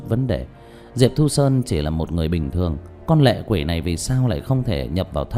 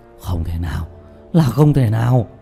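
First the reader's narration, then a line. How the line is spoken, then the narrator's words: Terrified, trembling cry. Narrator (Vietnamese): Diệp Bá lộ ra vẻ hoảng sợ cực độ, cả người run rẩy không ngừng kêu lên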